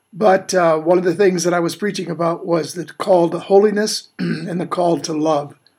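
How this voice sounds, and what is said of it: Slightly strained voice. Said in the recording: “my voice is a little bit strained”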